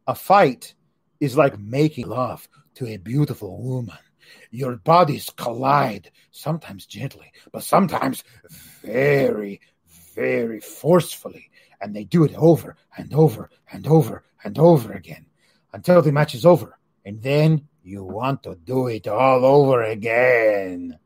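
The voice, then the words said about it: Bad Antonio Banderas impression. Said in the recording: “That's a terrible impression of Angel Garza ... It was an impression of Antonio Banderas ... That's a bad impression of Antonio Banderas as well”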